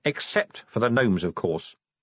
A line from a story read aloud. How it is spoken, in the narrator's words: said Vimes coldly